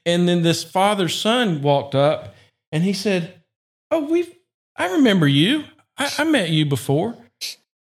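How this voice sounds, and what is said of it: Hillbilly accent. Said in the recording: “it's the hillbilly accent”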